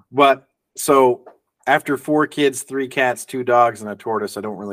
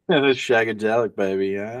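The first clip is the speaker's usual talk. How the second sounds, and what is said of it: Bad British Austin Powers impression. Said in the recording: “do a Austin Powers impression ... That was just random, horrible British. English, whatever.”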